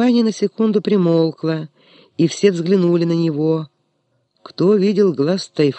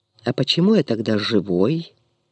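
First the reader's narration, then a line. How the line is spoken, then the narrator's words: Solemn hoarse, smiling. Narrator (Russian): человек, широко заулыбавшись, торжественно прохрипел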